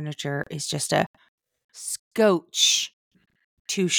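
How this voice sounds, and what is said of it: Usual voice. Nothing is said of it.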